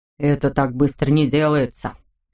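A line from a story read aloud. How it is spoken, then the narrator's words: Father grumbling. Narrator (Russian): проворчал папа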